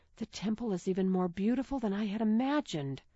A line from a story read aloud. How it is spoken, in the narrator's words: she whispered